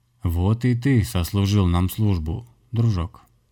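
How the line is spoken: Mocking bass voice. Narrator (Russian): было сказано с насмешкой басовым голосом

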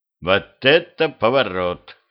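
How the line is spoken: Amused snort. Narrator (Russian): хмыкнул

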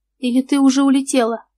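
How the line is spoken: Question with ironic snort. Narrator (Russian): спросил Худояров и иронически хмыкнул

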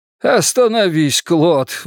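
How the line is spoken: Pleading. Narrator (Russian): взмолился Элькатук

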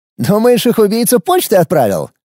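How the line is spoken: Short laugh. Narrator (Russian): хохотнула Нина

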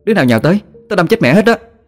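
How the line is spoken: Yelling. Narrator (Vietnamese): cô la lên

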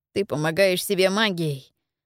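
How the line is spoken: Sighing boy. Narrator (Russian): вздохнул неумелый мальчик

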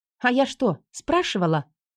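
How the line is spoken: Snapped. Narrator (Russian): Огрызнулась

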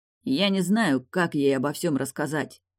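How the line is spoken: Muttering under breath. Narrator (Russian): пробурчал Далий себе под нос

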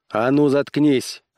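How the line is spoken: Barked in sudden rage. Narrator (Russian): рявкнул Корлис в приступе внезапной ярости

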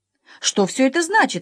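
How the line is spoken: Exclamation trembling with anger. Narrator (Russian): воскликнул пан Клякса, весь дрожа от гнева

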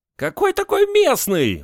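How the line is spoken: Shrieked. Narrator (Russian): взвизгнул первый

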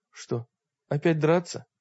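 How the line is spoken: Noisy sigh. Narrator (Russian): Мрак шумно вздохнул

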